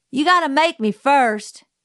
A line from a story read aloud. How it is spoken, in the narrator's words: he yelled